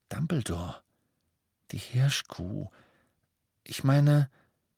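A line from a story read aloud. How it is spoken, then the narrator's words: Embarrassed, quiet. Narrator (German): Ron blickte ein wenig verlegen, sagte aber mit leiser Stimme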